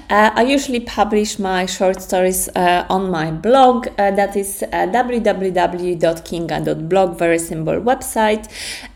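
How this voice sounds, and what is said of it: Polish accent in English. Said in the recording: “As you can hear the accent, you're potentially wondering where is it from. I'm from Poland.”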